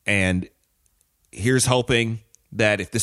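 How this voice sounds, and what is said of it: Usual voice. Nothing is said of it.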